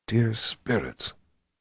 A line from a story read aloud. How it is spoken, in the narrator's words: Zed whispered